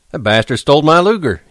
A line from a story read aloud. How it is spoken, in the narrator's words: he shouted